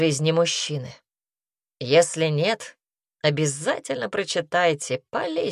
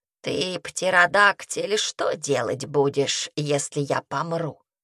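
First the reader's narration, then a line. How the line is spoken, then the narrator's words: Creaky old woman's voice. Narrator (Russian): старая и проскрипела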